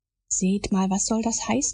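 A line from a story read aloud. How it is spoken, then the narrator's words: Plain question. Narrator (German): fragte der Doktor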